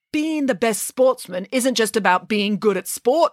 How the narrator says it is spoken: snapped the headmaster

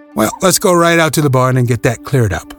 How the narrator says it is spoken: the county attorney said briskly

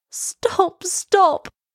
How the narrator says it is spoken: cried Elsa

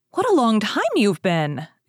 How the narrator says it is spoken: exclaimed his mother, who was watching anxiously for him

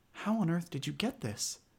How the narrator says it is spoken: she asked

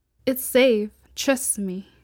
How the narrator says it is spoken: Greta said

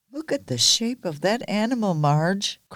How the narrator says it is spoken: cried one man

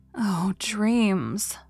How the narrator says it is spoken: sighed Anne

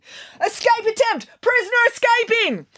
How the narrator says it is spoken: guards were yelling

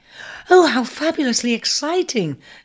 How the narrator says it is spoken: exclaimed the sisters over the moon that Aquarius was breaking his mould

